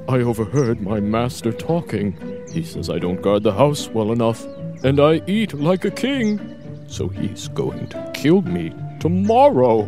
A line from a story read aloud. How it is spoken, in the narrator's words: The dog whined